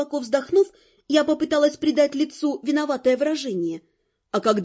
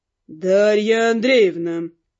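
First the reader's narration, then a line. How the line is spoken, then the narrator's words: Professor, through gritted teeth. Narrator (Russian): процедил профессор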